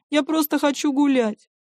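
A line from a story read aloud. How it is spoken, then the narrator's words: Tearful reply. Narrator (Russian): Вадим сквозь слезы всегда отвечает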